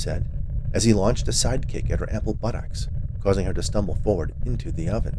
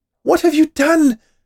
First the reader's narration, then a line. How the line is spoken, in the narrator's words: the witch cried from inside the oven